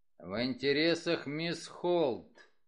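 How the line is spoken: Grumbled. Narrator (Russian): проворчал он

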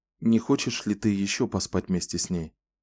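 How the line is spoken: Tender question. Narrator (Russian): нежно спросил он

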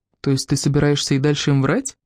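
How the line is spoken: Calm question. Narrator (Russian): спокойно спросил Тоби

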